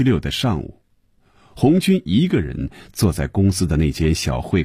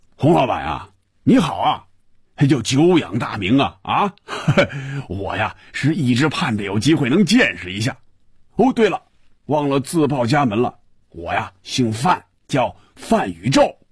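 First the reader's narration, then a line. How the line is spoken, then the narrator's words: Laughing, muffled booming voice. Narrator (Chinese): 电话里首先传入红军耳朵的是一串笑声，然后是有些瓮声瓮气的声音说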